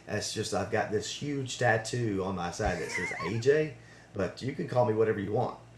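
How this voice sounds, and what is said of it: Southern American accent. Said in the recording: “this Southern accent that I can't shake”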